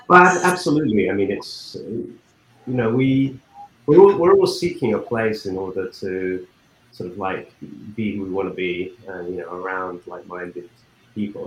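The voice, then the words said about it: Texan accent. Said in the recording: “I love your accent, being that you're a Texan”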